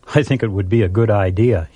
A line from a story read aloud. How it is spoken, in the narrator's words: he answered